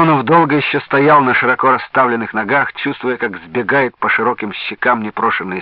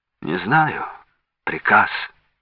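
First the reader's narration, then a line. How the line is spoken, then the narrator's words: Policeman sighing. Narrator (Russian): вздохнул милиционер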